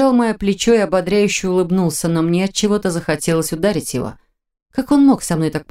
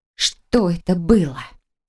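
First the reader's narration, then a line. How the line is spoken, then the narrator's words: Through gritted teeth. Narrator (Russian): Сквозь зубы процедила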